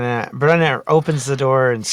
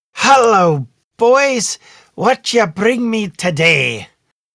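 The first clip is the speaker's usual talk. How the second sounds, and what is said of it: High-pitched screeching character voice. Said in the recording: “screeches at her highest voice”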